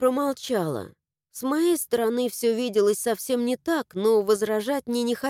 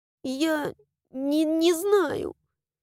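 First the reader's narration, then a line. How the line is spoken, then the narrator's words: Stammering and sobbing. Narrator (Russian): заикаясь, ответила я и, всхлипнув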